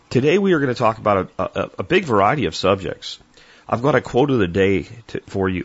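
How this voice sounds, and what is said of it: Slightly hoarse, soft-spoken voice. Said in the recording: “I still have a little bit of throat hoarseness ... speak a little softer to help with that”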